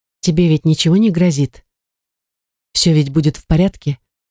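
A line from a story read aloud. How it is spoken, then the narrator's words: Muffled whisper. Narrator (Russian): глухо прошептала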